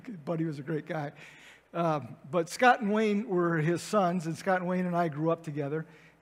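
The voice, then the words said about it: Choked-up, emotional voice. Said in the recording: “Sorry, I'm getting choked up.”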